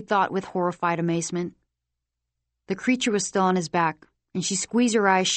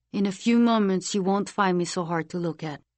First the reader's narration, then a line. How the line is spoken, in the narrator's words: Hiram said